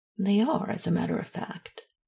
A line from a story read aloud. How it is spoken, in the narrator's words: said dryly, and a little exacerbated